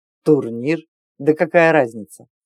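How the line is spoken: Snorting youth. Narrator (Russian): Фыркнул малой

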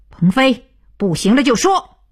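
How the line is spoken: Loud. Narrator (Chinese): 徐东福大声道

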